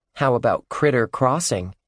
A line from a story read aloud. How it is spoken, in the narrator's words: Ruth Rose said